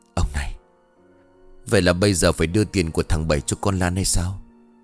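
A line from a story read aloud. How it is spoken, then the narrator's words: Sighing. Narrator (Vietnamese): bà Hai thở dài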